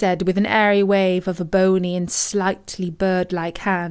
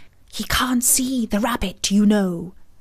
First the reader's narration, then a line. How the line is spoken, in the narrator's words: she added with a loud stage whisper